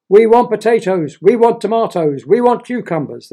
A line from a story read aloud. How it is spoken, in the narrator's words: they shouted at the royal family